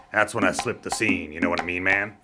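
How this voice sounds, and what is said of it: Beatnik-style slang voice. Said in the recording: “why are you talking like a beatnik?”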